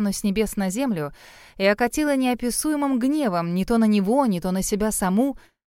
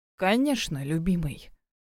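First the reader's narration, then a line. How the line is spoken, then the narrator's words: Rough low cooing. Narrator (Russian): проворковала невеста грубым низким голосом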